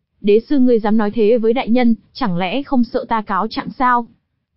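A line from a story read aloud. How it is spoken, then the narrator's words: Cold voice. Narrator (Vietnamese): Thanh âm lạnh lùng của người mang mặt nạ hoàng kim vang lên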